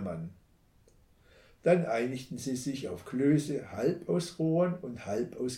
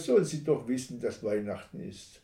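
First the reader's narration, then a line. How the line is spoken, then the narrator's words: Sighing. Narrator (German): seufzte er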